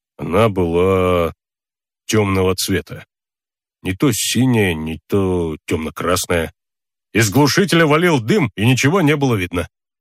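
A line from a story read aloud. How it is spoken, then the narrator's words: Uncertain. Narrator (Russian): неуверенно сказал полицейский номер 141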